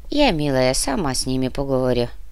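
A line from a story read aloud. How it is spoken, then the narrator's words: Calm old woman. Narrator (Russian): спокойно сказала старуха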